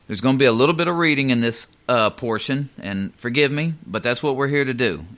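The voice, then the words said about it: Speaks with an accent. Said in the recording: “Just forgive me for my accent.”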